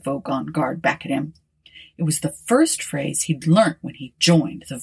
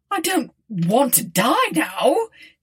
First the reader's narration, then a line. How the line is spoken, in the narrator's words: he yelled